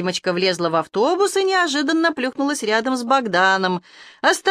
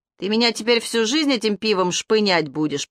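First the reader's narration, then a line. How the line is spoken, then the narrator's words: Grumbling mumble. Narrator (Russian): пробурчал Богдан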